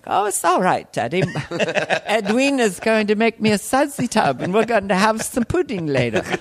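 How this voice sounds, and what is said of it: Dainty put-on British child accent. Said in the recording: “the kid actually was developing a British accent ... You sound kind of dainty.”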